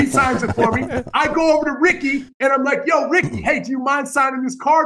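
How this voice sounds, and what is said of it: Usual voice. Nothing is said of it.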